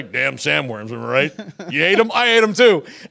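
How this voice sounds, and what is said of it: Beetlejuice character voice. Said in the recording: “I think that's pretty good little Beetlejuice impression as well.”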